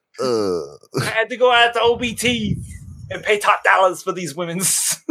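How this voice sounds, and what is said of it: Imitates another person's voice. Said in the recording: “did you turn into Dusty Rhodes? ... He can do that voice so much better than I can.”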